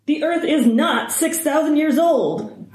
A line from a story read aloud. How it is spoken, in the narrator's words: Hardison shouts